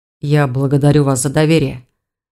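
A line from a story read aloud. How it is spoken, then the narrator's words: Muffled dragon mutter. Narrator (Russian): глухо пробормотал дракон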